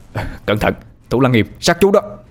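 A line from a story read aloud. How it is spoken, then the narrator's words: Shouted warning. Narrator (Vietnamese): Anh hét lên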